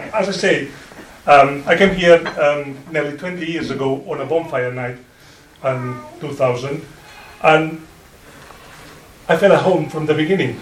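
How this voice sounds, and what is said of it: Non-native accent, not Yorkshire. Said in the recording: “as you can see by my accent, it's not Yorkshire accent, I'm trying very hard, but for 19 years, I still have my accent.”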